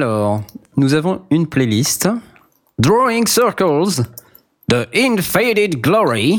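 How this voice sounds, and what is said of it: Usual voice. Nothing is said of it.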